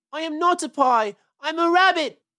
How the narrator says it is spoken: wailed Peter suddenly

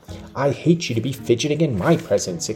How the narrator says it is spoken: exclaimed the young lady imperiously

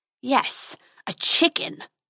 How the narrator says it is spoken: snarled the dragon

